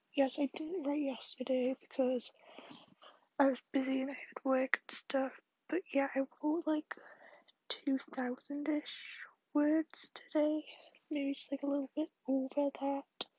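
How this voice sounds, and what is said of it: Tired, fading, hoarse voice. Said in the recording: “Sorry if you can't hear me, I'm so tired, I'm losing my voice”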